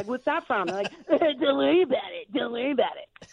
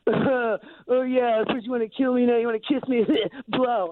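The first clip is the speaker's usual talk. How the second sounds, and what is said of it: Imitates a teenage boy's voice. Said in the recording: “That's a really good impression of a 17-year-old boy”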